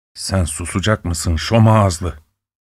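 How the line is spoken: Muttering. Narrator (Turkish): diye mırıldandı

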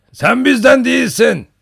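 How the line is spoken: Shouting. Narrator (Turkish): diye bağırdı

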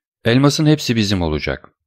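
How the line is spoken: Plain. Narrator (Turkish): dedi Cadrus

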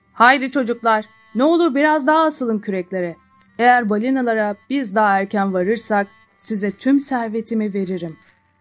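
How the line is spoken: Shouting. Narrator (Turkish): diye bağırıyordu

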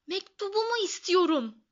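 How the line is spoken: Shouting. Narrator (Turkish): diye bağırdı

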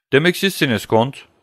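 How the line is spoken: Joyful young man exclaiming. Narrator (Turkish): diye haykırdı sevincini gösteren genç adam

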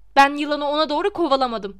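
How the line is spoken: Voice trembling with anger. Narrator (Turkish): dedi sesi öfkeyle titreyen Harry

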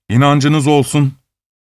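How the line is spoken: Plain. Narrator (Turkish): dedi

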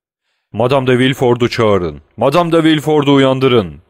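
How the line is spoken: Prosecutor shouting. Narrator (Turkish): diye bağırdı kraliyet savcısı

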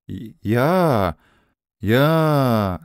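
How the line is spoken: Stammering. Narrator (Turkish): diye kekeledi

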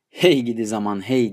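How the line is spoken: Joyless laughing voice. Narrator (Turkish): diye tatsız tatsız güldü ses

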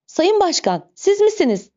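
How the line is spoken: Crying out. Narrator (Turkish): diye haykırdı

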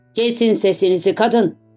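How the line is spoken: Plain. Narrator (Turkish): dedi

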